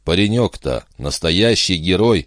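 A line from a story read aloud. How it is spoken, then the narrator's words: Sighing. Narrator (Russian): вздохнула Бобби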